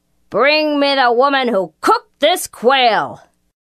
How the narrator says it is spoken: He bellowed to the soldier

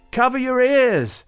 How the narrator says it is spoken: she shouted

